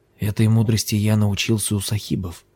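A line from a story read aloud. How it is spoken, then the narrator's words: Whispering. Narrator (Russian): зашептал он Лами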